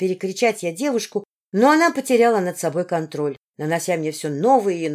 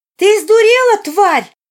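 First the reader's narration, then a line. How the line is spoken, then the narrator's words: Shout from above. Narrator (Russian): выкрикнул кто-то над нами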